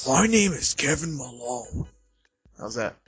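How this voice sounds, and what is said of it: Grainy Kevin Malone impression. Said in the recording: “my new impression ... A little, what's the word I'm looking for? Stupid, but not kidding. It's a little too, not deep, but too grainy.”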